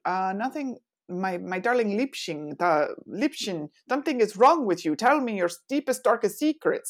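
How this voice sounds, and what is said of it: Put-on German accent. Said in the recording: “That was my German accent”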